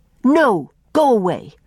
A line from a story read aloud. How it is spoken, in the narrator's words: snapped Faith